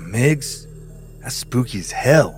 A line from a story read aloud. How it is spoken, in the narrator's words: muttered their RTO, Lance Corporal Rich Anderson, 21-year-old rifleman